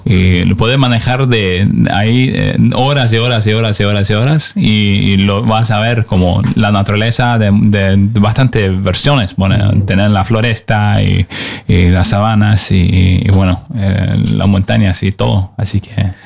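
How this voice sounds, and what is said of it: Announcer-like voice. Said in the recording (Spanish): “tiene voz de locutor él ... Tienes voz de locutor.”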